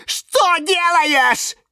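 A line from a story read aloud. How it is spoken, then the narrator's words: Shouted. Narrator (Russian): закричал Лимон Филимон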